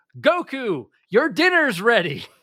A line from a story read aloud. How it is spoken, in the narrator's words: she yells